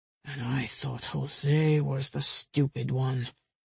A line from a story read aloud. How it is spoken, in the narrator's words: Rafael said under his breath as he shook his head in frustration